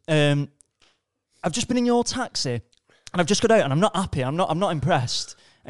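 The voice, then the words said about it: Attempted Scouse accent. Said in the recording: “Scouse taxi company ... Ignore the accent, I'm going to try it.”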